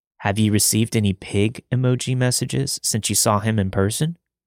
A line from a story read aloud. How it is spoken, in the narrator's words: Reggie asked